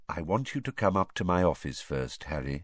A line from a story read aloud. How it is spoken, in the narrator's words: he said quietly